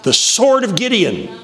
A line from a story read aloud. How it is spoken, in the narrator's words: you yell